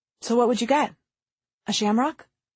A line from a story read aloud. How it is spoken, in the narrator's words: Alexis smiled and gently said